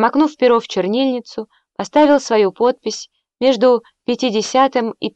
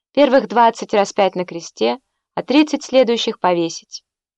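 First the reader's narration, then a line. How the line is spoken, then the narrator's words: Calm. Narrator (Russian): он спокойно сказал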